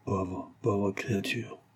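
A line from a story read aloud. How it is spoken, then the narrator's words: Said very quietly. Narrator (French): dit tout bas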